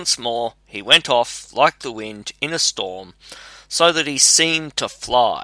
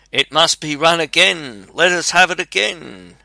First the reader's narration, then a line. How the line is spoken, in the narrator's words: cried